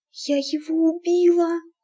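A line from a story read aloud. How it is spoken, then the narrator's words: Whisper. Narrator (Russian): прошептала она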